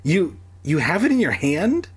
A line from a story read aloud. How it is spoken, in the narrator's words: I cried